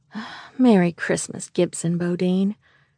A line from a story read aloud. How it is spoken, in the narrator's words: she sighed happily